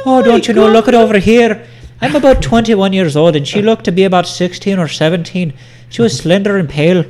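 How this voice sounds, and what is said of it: Poor put-on Irish accent. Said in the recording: “what kind of Irish accent is that? ... Mrs. Doubtfire”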